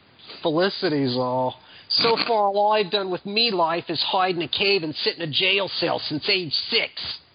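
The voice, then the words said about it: Snarling put-on Australian accent. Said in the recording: “Snarling. Australian accent.”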